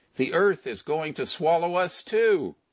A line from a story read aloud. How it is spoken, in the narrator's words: shouting